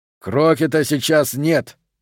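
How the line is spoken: Shouting over noise. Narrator (Russian): прокричал сквозь шум полковник

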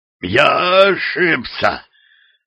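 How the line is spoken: Frightened hoarse croak. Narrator (Russian): прохрипел перепуганный татарин

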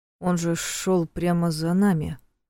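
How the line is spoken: Stunned mumble. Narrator (Russian): пробормотал ошарашенный Женя

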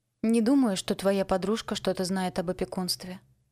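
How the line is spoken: Calm. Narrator (Russian): спокойно сказала я

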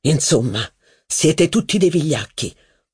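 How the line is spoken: Slapped man grumbling. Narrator (Italian): borbottò il giornalista schiaffeggiato

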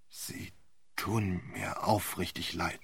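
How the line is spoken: Embarrassed stammering. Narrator (German): stammelte Sir Wilfrid, dem der Auftritt sehr peinlich war

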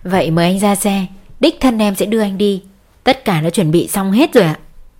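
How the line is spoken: Smiling. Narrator (Vietnamese): Ngoạn mỉm cười

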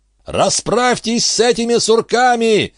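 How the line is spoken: Jubilant yelling. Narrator (Russian): ликующе орал он

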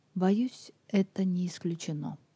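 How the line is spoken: Quiet male voice. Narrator (Russian): тихо сказал

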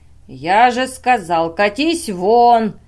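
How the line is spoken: Barking shout. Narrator (Russian): рявкнул дядя

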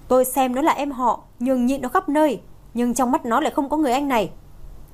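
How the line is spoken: Interrupting with loud shout. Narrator (Vietnamese): Phương Tinh Nghị ngắt lời ông ta, sau đó quát lớn

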